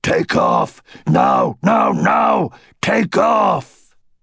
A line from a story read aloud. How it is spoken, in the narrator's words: the old dragon roared in his mind